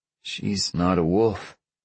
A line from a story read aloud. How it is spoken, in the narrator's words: Chad sighed